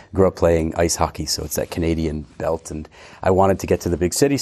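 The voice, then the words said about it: American New England accent. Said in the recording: “with this accent, definitely not. And I've never changed my accent ... I'm originally from near Boston”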